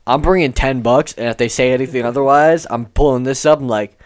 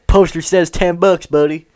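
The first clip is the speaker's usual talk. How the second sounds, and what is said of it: Put-on Southern accent. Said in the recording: “I gave myself a southern accent there.”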